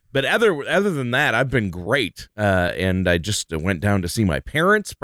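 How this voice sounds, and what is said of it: Slightly congested voice. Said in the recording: “I sound a little congested.”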